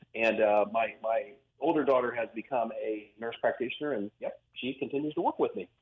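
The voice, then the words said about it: Hoosier Indiana accent. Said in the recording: “you notice my Hoosier accent. People notice our Hoosier accents ... what is that dialect? We've got a unique accent”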